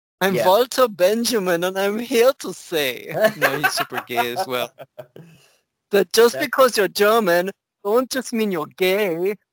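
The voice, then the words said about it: Campy put-on German accent. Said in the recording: “in a German accent ... doing a German accent automatically goes into like super camp”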